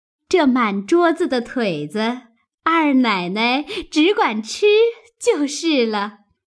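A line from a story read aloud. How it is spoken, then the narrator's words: Loud, laughing. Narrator (Chinese): 鸳鸯等笑着答应了，高声的说道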